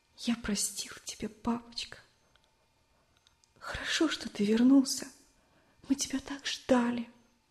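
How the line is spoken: Sobbing whisper, boy. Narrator (Russian): Мальчик шептал, всхлипывая

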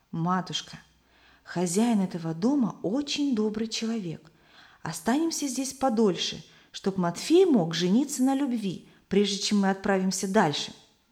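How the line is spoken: Whisper in ear. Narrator (Russian): Самуил шепнул на ухо матери

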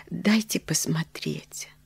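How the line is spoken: Hesitant whisper. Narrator (Russian): попросила нерешительным шепотом

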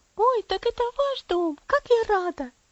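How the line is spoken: Excited child's exclamation. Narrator (Russian): воскликнула девочка

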